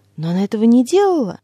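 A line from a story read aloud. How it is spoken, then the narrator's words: Exclaiming. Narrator (Russian): воскликнула женщина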